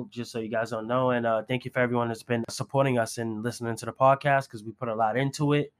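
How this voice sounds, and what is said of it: Congested voice from a cold. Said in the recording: “if my voice sounds different, it's because I have a cold,”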